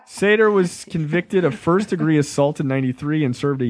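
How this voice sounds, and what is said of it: Usual voice. Nothing is said of it.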